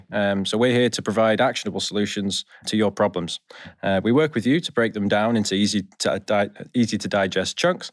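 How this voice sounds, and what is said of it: Yorkshire English accent. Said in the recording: “your accent's Yorkshire? ... Yes.”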